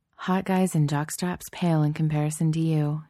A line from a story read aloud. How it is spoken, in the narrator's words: she murmurs